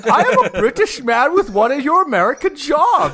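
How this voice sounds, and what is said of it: Put-on British accent. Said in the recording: “He's speaking in a British accent, obviously.”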